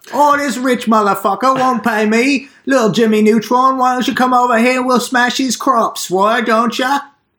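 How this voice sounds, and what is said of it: Put-on Cockney accent. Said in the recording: “that was a pretty good Cockney accent I just did ... that was excellent ... it was so spot on”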